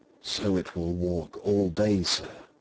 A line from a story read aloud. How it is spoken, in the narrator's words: whispered Paul